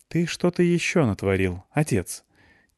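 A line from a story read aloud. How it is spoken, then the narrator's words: Quiet girl's question. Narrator (Russian): тихо спросила меня Настя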